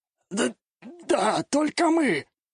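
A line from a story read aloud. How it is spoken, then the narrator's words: Strangled voice. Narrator (Russian): Придушенным голосом ответил мужчина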